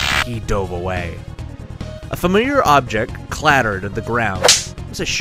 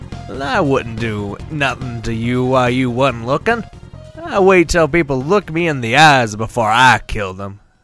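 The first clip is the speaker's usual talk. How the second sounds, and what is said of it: Raspy New Jersey accent. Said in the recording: “in a raspy voice, thick with a New Jersey accent.”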